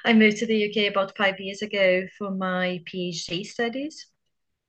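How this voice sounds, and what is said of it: Brazilian accent. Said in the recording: “as some have probably figured out by the accent, I'm Brazilian”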